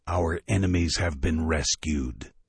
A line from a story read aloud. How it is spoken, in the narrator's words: came the haunted, rasping, echoing voice